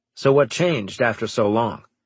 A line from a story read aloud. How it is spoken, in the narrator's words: asked Straker